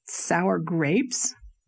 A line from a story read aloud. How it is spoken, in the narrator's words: queried Gilbert, laughing